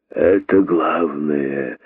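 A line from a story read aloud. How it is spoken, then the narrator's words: Satisfied hissing. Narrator (Russian): с удовлетворением прошипели удавы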